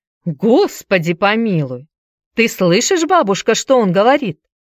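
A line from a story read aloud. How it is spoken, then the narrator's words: Exclaimed. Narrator (Russian): воскликнула она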